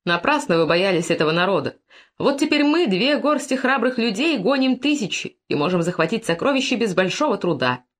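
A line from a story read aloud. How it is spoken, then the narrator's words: Cheerful. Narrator (Russian): весело, говоря своим воинам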